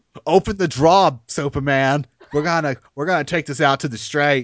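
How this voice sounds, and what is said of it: Put-on Boston accent. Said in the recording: “New Yorker, New Jersey accent coming out of Bruce Wayne... He's from Baston, like South Boston... That's what he sounded like to me”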